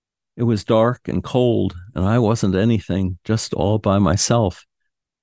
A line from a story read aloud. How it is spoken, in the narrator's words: sadly and said